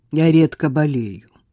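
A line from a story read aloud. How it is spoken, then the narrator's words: Dry. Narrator (Russian): сухо отозвалась она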